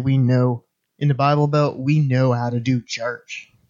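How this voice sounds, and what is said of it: Put-on Southern accent. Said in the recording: “That was an appropriate accent.”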